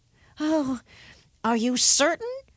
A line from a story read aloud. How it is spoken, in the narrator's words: asked the youngest son uneasily